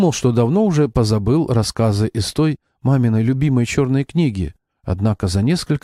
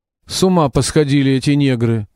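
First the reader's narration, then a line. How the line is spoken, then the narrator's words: Grumbling boatswain. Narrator (Russian): ворчал боцман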